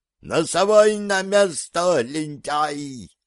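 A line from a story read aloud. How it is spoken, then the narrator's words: Thin, howling old man. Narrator (Russian): тонким голоском взвыл старик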